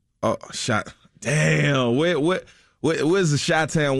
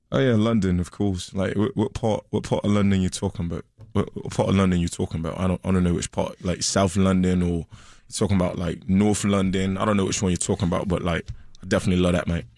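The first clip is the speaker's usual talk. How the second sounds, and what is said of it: Put-on London accent. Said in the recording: “can you do like believable regional accents? ... how about London?”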